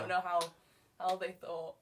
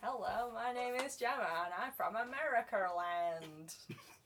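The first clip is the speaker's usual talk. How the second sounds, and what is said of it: Put-on American accent. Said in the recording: “It's my best American accent.”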